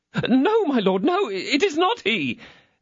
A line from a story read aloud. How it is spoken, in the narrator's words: exclaimed Bonancieux